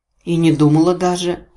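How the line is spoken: Irritated snort. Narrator (Russian): раздраженно фыркнула я

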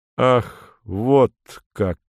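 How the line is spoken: Slow. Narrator (Russian): медленно произносит он наконец

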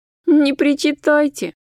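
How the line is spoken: Laughing girl. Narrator (Russian): засмеялась девушка

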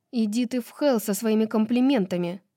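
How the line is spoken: Snapped back. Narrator (Russian): огрызнулась Сас

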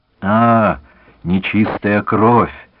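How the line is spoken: Deep bass, muffled. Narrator (Russian): пробасил он из-под усов

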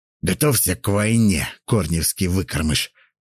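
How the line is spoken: Hissing. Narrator (Russian): прошипел

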